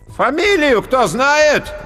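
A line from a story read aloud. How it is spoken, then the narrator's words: Loud commanding call. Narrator (Russian): громко и властно выкликал толстяк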